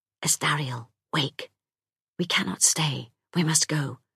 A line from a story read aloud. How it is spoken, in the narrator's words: whispering